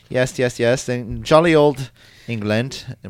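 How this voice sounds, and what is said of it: Put-on English accent. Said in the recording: “In my beautiful English accent.”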